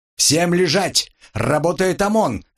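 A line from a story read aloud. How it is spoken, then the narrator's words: Barked. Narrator (Russian): рявкнул Стас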